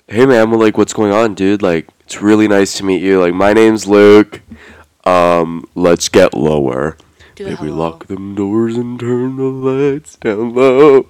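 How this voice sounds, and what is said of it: Put-on straight-guy character voice. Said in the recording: “in his hetero voice... This is the voice ... does when he meets, like, heterosexual men.”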